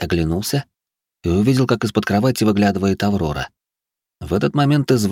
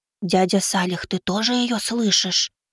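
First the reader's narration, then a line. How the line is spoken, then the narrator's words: Loud whisper from below. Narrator (Russian): Громкий шепот донесся откуда-то снизу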